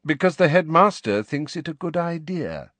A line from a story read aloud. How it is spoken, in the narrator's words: said Snape smoothly